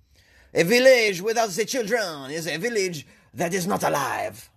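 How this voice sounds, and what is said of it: Put-on French accent. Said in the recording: “was that a good French accent? ... That's an amazing French accent. I just blew myself away with that”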